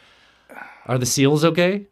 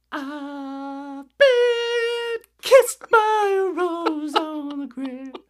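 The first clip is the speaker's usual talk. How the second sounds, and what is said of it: Sung impression of another person's voice. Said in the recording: “my seal impression ... it's a treat ... That was beautiful, man.”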